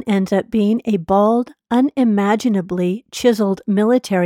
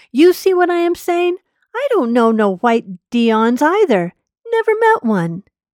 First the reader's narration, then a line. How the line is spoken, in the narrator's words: he yells